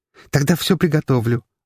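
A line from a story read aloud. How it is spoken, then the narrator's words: Joyful declaration. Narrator (Russian): радостно заявила Ира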